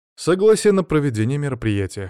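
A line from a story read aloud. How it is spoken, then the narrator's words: Snorting. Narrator (Russian): хмыкнул я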